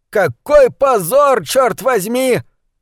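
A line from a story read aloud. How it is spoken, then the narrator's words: Yelling. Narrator (Russian): заорал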